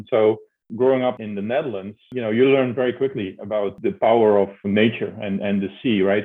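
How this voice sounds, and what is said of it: Dutch accent. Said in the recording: “I'm Dutch, as you can tell by my name and hear by my accent.”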